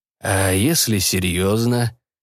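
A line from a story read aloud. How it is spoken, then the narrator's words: Stern detective. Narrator (Russian): сказал детектив, грозно нахмурив брови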